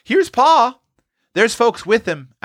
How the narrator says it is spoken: Roxy called out

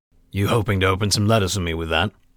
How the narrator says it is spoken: Voslo chuckled

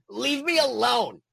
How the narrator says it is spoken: snapped Control Freak, crouching on the floor in an attempt to duck the attacks of the mini dragons

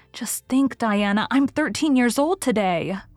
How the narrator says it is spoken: remarked Anne in an awed voice

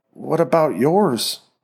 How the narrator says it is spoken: Marie stammered

